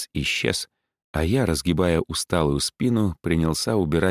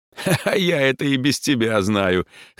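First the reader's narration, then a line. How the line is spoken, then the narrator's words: Short laugh. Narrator (Russian): хохотнул Борис Михайлович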